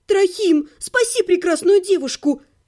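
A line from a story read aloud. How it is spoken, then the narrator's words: Exclamation. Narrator (Russian): воскликнула я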